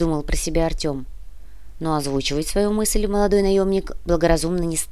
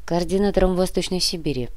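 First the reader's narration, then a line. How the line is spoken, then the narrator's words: Dry reply, old man. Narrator (Russian): сухо ответил старик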